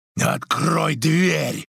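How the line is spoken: Roar. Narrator (Russian): проревел Грик

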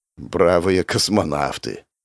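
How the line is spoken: Mocking mutter. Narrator (Russian): с усмешкой пробормотал я

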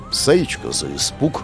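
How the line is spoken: Muttered. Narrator (Russian): пробормотал

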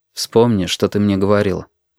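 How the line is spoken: Plain. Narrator (Russian): сказал Костя

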